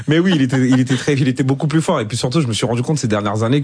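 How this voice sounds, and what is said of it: French with an Ivorian accent. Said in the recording (French): “votre accent ivoirien ... l'accent est toujours là. On peut le sentir à tout moment.”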